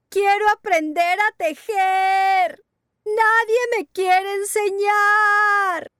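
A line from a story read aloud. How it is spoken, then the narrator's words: Shouting. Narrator (Spanish): gritar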